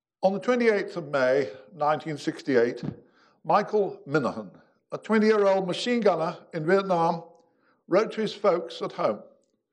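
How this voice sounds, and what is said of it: Speaks with a noticeable foreign accent. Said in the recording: “bear with my accent tonight”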